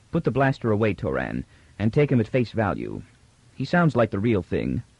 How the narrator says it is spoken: Beta said calmly

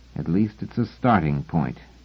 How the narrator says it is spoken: said Selden grimly

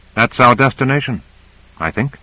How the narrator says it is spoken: Owens said quietly

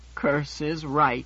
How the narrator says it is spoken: Menander said gloomily

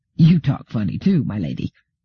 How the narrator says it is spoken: The settler laughed, and said

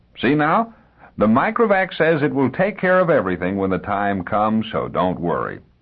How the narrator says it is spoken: Jared said cheerfully

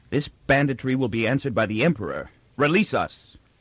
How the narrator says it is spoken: He said fiercely

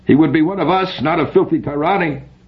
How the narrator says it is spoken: One in the audience cried out

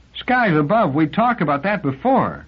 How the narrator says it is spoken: cried Clarissa in anguish

